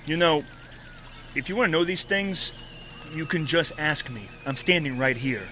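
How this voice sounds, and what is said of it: Hard-to-place New York-like accent. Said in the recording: “Subject speech is difficult to place. Strange accent, similar to that of the Upper North Side, but distinctly different.”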